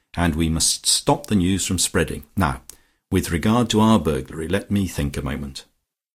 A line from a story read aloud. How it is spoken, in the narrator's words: continued Lucia calmly